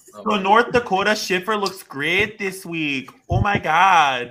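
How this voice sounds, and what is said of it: Put-on Minnesota Midwestern accent. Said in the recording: “I love that you're doing a Minnesota accent... Well, it's Midwestern.”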